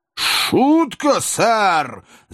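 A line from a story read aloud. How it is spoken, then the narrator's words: Angry shout. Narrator (Russian): закричал мистер Потт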